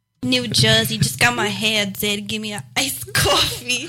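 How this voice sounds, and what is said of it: Imitated New Jersey accent. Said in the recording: “There's an impersonation of somebody from New Jersey. Made from somebody from New York City.”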